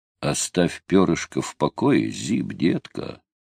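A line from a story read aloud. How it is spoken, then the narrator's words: Gentle, affectionate. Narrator (Russian): ласково произнес Томми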